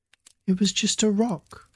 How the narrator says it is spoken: his mum said calmly again

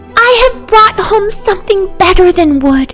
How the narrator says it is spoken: cried the child

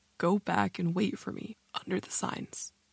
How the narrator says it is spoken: said, calmly it seemed, but in a choked and croaking voice

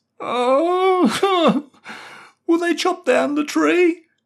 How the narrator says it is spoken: sobbed

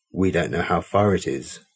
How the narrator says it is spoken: Mel said

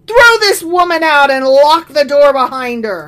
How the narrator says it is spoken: He shouted for his servant and demanded

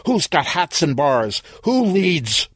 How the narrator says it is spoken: Reinhardt shouted

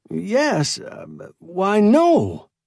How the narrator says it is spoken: Engel sputtered

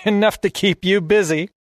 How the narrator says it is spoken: she laughs

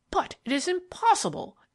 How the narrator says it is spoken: exclaimed Miller

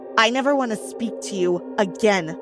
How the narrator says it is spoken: she snarled

